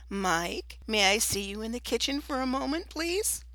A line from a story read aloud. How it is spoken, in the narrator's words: sweetly calling out